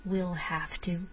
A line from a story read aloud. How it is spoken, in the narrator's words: repeated Winnie, sitting back calmly